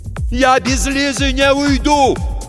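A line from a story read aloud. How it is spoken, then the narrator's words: Shouted. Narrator (Russian): крикнул Тихон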